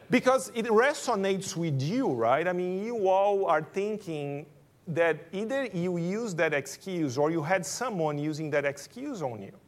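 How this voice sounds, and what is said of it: Brazilian accent. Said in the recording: “you notice by my accent, I'm Brazilian”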